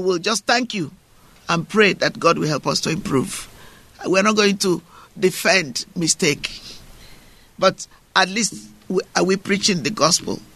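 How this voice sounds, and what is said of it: British African accent. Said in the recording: “The accent, the voice ... my British African accent”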